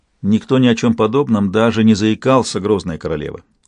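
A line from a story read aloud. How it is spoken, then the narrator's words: Flat impassive tone. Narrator (Russian): бесстрастным тоном солгал Сельден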